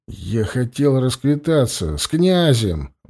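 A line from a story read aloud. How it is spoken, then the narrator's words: Muttering to himself. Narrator (Russian): бормотал Власко, не замечая, что говорит вслух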